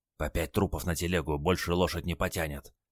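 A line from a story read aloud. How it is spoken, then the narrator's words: Old man whispering. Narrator (Russian): шепнул дед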